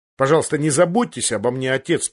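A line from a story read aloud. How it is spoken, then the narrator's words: Angry voice. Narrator (Russian): проговорил Тирион сердитым голосом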